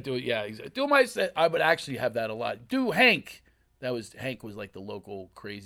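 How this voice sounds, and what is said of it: Usual voice. Nothing is said of it.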